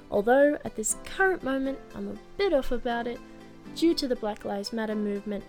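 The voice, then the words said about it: Australian accent. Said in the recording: “I am Australian. Of course, I'm Australian, can't you hear my accent?”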